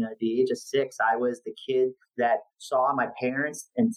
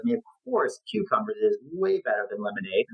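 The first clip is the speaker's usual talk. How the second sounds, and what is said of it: Sarcastic tone. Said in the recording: “I say that very sarcastically”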